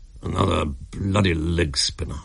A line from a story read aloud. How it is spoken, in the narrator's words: he muttered savagely